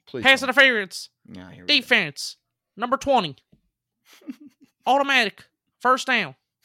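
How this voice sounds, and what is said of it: Imitates a football referee's announcing voice. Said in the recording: “I can do a good impersonation of the referee ... That's what that guy sounds like.”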